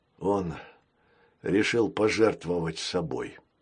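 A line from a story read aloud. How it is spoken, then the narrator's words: Sad. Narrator (Russian): печально сказал Крокс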